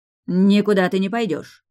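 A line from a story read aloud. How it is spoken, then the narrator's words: Bark. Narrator (Russian): рявкнула магистр Шан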